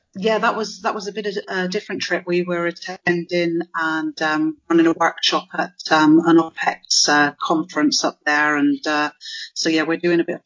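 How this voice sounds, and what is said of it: Non-American accent. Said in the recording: “as you can tell by my accent, not originally from Kansas”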